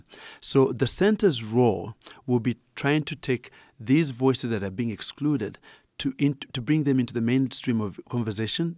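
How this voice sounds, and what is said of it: Ugandan English accent. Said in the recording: “as you can tell from my accent, I'm originally Ugandan.”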